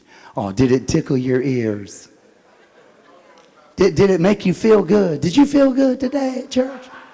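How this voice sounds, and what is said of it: Sarcastic mocking questions. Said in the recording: “I'm being sarcastic.”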